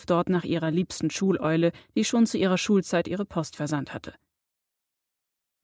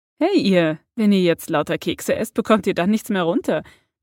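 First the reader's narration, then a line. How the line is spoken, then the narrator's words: Friendly greeting. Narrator (German): begrüßte Hermine alle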